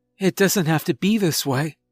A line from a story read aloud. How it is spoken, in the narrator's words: she says, her voice wavering